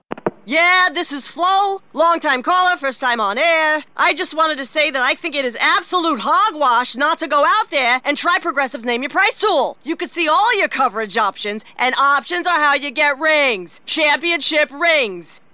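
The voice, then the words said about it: Sports talk radio caller voice. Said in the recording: “my impression of someone calling into Sports Talk Radio”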